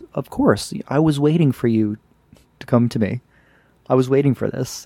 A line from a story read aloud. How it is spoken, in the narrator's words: goes very almost sweetly, replies with